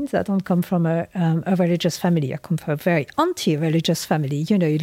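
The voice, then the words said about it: French accent. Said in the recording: “you have the most beautiful accent, which I suspect goes beyond the British Isles ... I do have an accent. I'm French”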